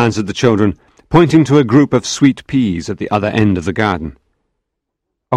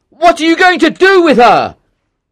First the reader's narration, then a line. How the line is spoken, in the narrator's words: shouted